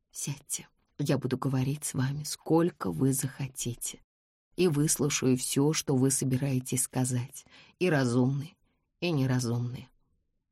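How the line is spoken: Soft. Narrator (Russian): мягко сказала

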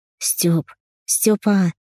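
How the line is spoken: Whispered call. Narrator (Russian): позвала шепотом

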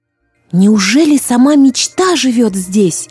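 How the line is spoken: Exclaimed. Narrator (Russian): воскликнула Злата

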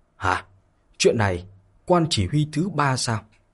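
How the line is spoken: Shocked, fearful murmuring. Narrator (Vietnamese): tất cả mọi người trong đại sảnh không còn kiềm chế được sự kinh ngạc sợ hãi nữa, bắt đầu thì thầm to nhỏ

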